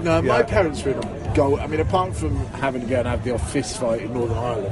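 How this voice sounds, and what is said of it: Generic British army accent. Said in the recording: “you're a Scottish that doesn't say Scotch ... Clearly, you're an Aberdonian ... it's Parachute Regiment ... Ended up with a generic British army accent.”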